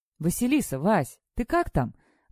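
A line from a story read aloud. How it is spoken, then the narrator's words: Loud call from afar. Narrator (Russian): Громко издалека позвала ее Наташа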